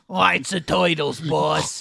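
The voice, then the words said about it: Bebop or Rocksteady cartoon voice. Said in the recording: “You sound like one of the Ninja Turtles ... Bebop and or Rocksteady ... That is a really good impression”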